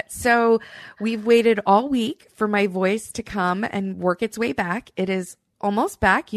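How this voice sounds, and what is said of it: Slightly raspy recovering voice. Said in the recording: “lost my voice ... You may still hear a little bit of a cough or some raspiness”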